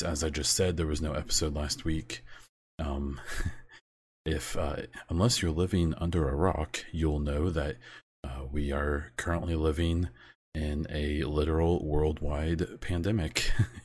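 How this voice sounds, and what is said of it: American English accent. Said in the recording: “I live in the United States, if you can't tell from my accent”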